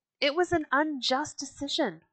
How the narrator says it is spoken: someone cried

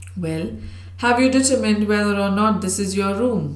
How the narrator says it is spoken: asked the girl on my left, laughing wickedly as she spoke

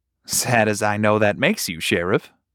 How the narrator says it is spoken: Branson chuckled

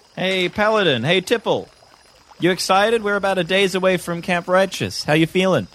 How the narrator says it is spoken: I shout from my canoe

